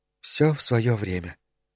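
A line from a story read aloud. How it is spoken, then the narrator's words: Quiet. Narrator (Russian): тихо сказала она наконец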